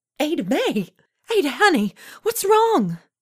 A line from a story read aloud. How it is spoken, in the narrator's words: the bolder of the group, Coraline, cried out